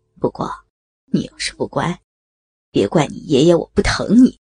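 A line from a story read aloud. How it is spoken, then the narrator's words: Soft whisper. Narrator (Chinese): 他在雅文的耳边轻声说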